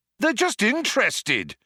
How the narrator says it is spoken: shouted Zaphod

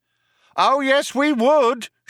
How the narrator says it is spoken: shouted the cop

